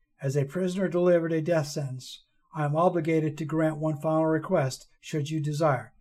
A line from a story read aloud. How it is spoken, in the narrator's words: she said calmly, as if she had repeated those words 1,000 times before